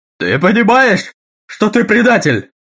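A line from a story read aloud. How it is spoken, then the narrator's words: Shrieking. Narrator (Russian): визжал Таггерт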